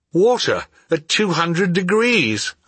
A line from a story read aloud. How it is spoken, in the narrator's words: I exclaimed